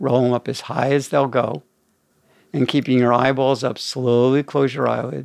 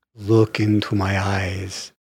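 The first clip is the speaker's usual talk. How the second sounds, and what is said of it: Dracula-style spooky vampire voice. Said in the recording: “his Dracula impersonation”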